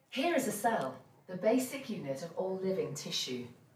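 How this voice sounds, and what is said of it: English accent. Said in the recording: “the narrator's English accent”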